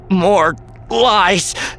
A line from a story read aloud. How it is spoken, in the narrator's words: Ben gasped